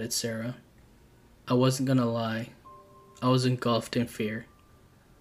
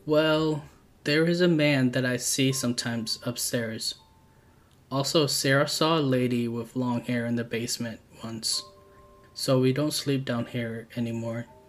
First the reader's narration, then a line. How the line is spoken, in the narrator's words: replied sternly